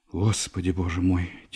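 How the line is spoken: Quiet, agitated mother. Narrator (Russian): тихо взволнованно сказала мать

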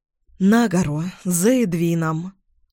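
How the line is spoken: Breathless reply. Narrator (Russian): выдохнула я в ответ

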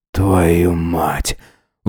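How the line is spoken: Exhaled. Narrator (Russian): выдохнул Джеймс

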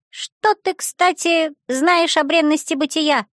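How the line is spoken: Thin whiny voice. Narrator (Russian): осведомился он своим комариным голосом

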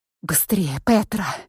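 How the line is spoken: Whisper. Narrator (Russian): прошептала я

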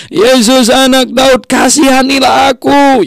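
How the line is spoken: Shouting as loud as possible. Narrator (Indonesian): Dia berteriak sekencang-kencangnya

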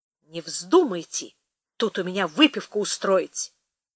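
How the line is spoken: Stern warning. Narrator (Russian): строго предупредил Кадыков

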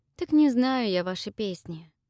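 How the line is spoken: Sighing. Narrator (Russian): вздохнула я

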